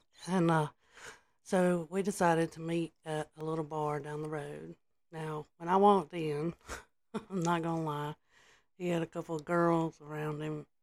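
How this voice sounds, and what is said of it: Congested, sick-sounding voice. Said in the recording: “excuse my voice. I've been a little bit sick and congested”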